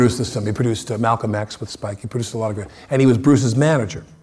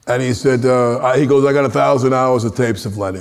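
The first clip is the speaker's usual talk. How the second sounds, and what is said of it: Heavy New York accent, deep voice. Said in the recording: “one of the heaviest New York accents I've ever heard in my life. His voice was down here. He had a very heavy accent”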